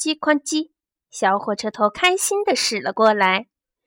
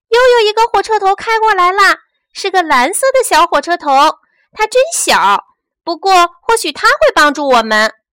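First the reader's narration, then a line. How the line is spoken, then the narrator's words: Sudden shout. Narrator (Chinese): 突然，玩具小丑大喊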